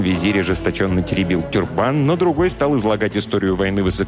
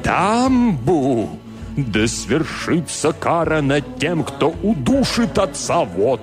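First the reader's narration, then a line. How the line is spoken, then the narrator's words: Solemn proclamation. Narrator (Russian): торжественно провозгласил теребитель тюрбана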